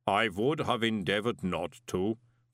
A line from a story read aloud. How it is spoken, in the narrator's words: the golem rumbled